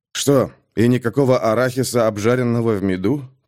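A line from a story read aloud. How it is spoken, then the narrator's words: Muttering. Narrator (Russian): пробормотал он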